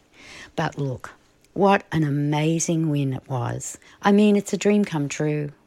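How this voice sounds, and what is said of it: Slightly husky voice. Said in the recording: “My voice is back. Kinda. Not 100%, still a bit husky.”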